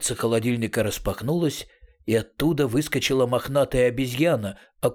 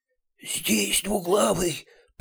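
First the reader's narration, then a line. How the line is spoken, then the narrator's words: Wheezing asthmatic whisper. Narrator (Russian): просвистела она астматическим шепотом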